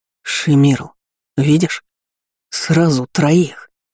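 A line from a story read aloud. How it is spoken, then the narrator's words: Breathless jubilant exhale. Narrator (Russian): Едва смог говорить, ликующе выдохнул четвертый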